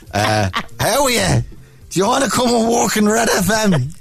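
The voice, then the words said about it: Dublin accent impression of a man. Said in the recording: “this Dublin dude ... bad Dermot impression ... Sounds exactly like.”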